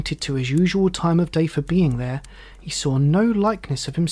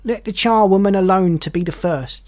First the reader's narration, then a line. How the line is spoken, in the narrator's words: cried the woman